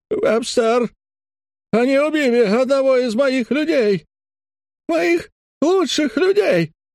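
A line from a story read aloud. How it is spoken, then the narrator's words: Distraught, near sobbing. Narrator (Russian): Броуз только что не рыдал ... полностью выведенный из равновесия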